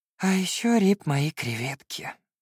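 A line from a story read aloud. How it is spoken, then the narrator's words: Sighing. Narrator (Russian): вздохнул Феликс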